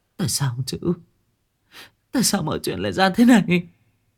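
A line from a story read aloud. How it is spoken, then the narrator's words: Trembling, muffled voice. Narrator (Vietnamese): Lan bưng miệng run rẩy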